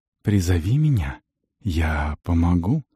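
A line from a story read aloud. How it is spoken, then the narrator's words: Whisper. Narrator (Russian): Шепнул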